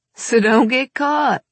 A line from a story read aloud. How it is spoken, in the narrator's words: he replied with a laugh